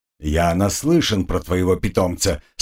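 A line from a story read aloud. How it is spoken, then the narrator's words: Stern. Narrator (Russian): строго объяснил магистр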